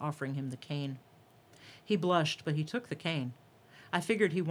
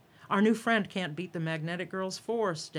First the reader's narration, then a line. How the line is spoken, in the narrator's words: Daddy called out, encouraging the audience to cheer louder